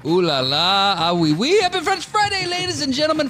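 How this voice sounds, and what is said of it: Terrible fake French accent. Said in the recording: “this terrible French accent”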